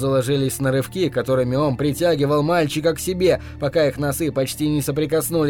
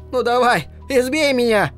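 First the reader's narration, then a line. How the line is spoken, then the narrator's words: Shouted, taunting. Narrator (Russian): крикнул он Хэлу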